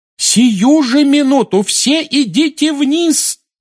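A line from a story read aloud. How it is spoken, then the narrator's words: Yelling. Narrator (Russian): завопила миссис Уизли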